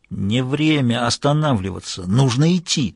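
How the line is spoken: Hissing, gritty forced whisper. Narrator (Russian): свистящим песчаным шепотом выдавил

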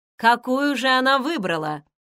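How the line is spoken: Amused young man asking. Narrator (Russian): спросил один из засмеявшихся молодых людей, с удовольствием слушавший рассказ Джо

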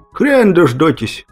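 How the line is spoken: Failed laugh, dying croak. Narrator (Russian): Попытался хохотнуть я, но из груди вырвался лишь клёк от умирающей птицы

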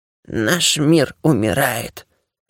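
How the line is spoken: Spirit's hoarse rasp. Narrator (Russian): прохрипел дух

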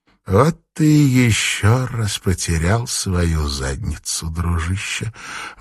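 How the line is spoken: Sighing. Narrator (Russian): вздохнула Кейси

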